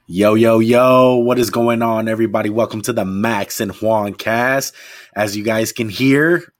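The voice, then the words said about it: Hoarse, partly lost voice. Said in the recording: “my voice is a little bit gone ... I'm losing my voice”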